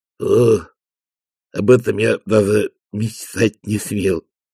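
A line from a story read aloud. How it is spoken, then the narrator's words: Muttering. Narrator (Russian): пробормотал он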